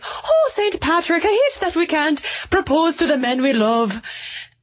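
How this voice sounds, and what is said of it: Put-on Irish accent. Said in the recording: “Are you going to do an Irish accent for this? ... You can't do an Irish accent, can you?”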